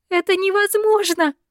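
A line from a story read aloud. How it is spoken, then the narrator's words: Hysterical scream, choking on tears. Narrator (Russian): Истерически закричала девушка, давясь слезами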